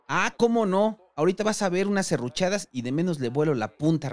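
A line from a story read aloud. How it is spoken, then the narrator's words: Plain reply. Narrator (Spanish): respondió don Carlos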